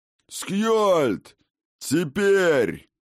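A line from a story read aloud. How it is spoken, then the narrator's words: Bellowing at full voice. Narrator (Russian): гаркнул отец богов во всю глотку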